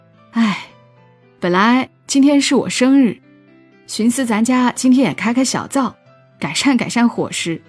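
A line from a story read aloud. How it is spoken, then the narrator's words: Chuckle, then sigh. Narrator (Chinese): 李奶扑哧一下乐了，叹了一口气，说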